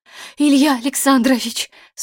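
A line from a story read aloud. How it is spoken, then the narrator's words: Strained, forced out. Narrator (Russian): с трудом выдавил из себя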